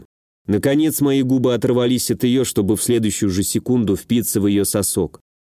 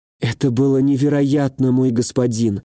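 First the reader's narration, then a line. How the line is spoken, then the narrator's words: Languid sigh, young woman. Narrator (Russian): Томно вздохнула девушка, еще не до конца отойдя от произошедшего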